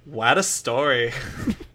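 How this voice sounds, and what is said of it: New York accent impression of Birdie. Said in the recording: “Good New York accent.”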